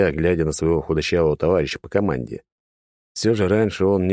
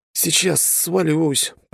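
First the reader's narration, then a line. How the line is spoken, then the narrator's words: Groaning, strained young man. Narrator (Russian): простонал парень, похоже, перенапрягся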